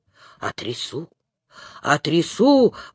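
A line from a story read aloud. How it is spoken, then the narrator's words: Muttering. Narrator (Russian): бормотал он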